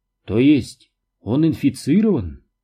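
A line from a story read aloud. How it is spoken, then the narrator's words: Calm. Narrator (Russian): спокойно сказала Маргарет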